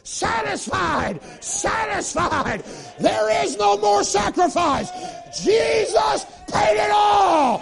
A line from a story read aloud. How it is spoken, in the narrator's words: that brazen altar yells